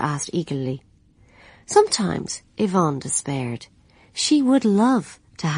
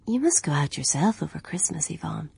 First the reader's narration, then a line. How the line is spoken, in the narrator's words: she said